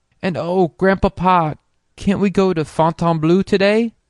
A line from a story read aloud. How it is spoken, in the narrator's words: begged Polly